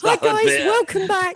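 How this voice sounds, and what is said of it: High-pitched imitation voice. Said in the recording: “I might have a really high voice... Michael Jackson.”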